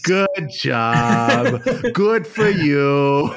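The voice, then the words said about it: Put-on accent. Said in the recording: “I have to put on accents to be sincere.”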